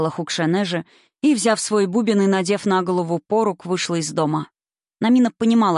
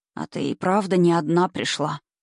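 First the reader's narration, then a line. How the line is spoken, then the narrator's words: Quiet. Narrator (Russian): сказала она тихо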